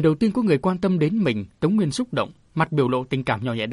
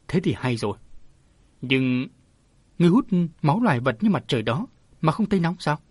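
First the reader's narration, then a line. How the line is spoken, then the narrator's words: Tender, gentle question. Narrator (Vietnamese): Lão già giật mình nhưng trở lại bình tĩnh được ngay, hỏi bằng giọng âu yếm dịu dàng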